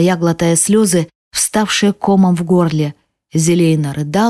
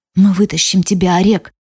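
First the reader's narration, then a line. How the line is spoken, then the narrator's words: Hoarse rasp. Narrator (Russian): прохрипела я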